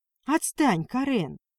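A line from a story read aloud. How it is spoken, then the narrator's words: Indifferent exhale. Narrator (Russian): равнодушно выдохнула Леся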